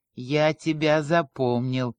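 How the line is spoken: Through gritted teeth. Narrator (Russian): сквозь зубы сказал Саша

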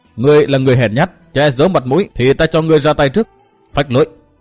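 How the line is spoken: Cold, stern speech. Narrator (Vietnamese): trừng mắt lạnh lùng nói

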